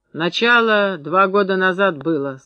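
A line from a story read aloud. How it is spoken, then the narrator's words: Stern. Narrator (Russian): строго сказал Демид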